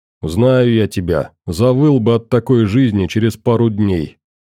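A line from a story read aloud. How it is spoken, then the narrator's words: Grumbling. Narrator (Russian): проворчал Максим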